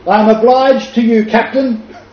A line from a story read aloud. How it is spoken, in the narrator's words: he called out